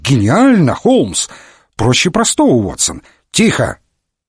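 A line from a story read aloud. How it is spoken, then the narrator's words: Exclaimed. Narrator (Russian): воскликнул комиссар Катани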